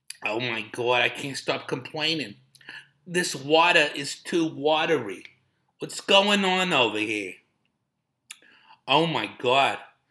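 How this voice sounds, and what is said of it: Imitating complaining old Jewish ladies. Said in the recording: “Be like those old Jewish ladies, huh?”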